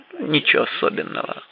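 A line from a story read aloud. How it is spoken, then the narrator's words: Muttered. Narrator (Russian): пробормотал Флетч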